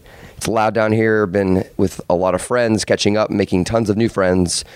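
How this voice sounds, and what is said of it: Slightly raspy voice. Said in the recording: “my voice is a little raspy.”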